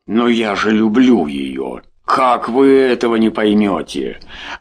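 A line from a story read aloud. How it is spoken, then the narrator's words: Exclaiming. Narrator (Russian): воскликнул Дима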